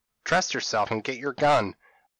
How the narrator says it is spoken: cried I

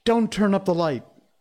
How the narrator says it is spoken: he cried

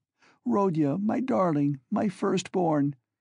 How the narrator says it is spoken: she said, sobbing

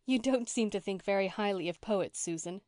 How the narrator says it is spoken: said Anne, laughing

